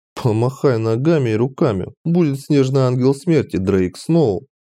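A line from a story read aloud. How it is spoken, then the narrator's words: Nervous giggle. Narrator (Russian): нервно хихикнул я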